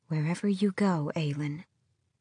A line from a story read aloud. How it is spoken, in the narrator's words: she whispered